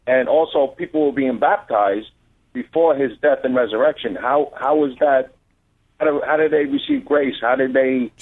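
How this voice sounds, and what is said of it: New Jersey accent. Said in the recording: “I love your accent... there's nothing like a New Jersey accent”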